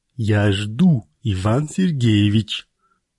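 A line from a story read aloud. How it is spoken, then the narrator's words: Through tight lips. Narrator (Russian): процедил Карагодский, поджав губы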